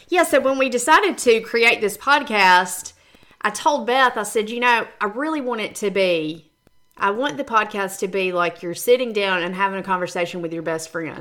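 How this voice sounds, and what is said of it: Southern country Georgia accent. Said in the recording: “I'm very country and I laugh at my accent when I hear myself ... we are from Georgia, and you can hear it every time we speak”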